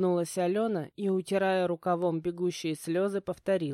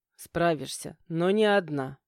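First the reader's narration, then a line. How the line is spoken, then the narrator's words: Husband objecting. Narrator (Russian): возразил муж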